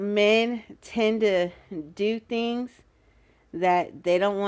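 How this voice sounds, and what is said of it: Usual voice. Nothing is said of it.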